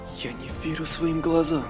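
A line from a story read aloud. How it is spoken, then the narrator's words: Whispered. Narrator (Russian): прошептал эльф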